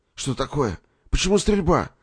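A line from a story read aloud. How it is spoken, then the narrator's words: Alarmed, just woken. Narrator (Russian): встревоженным голосом спросил, просыпаясь, Николай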